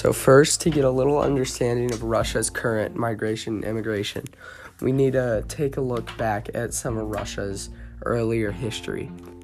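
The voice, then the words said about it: Rough voice from illness. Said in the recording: “I'm just getting over being sick with the flu, so my voice sounds a little bad right now.”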